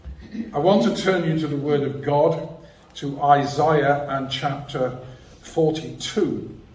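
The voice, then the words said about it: Non-local accent. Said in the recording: “As you will see, hear from my accent, I'm not from these parts at all.”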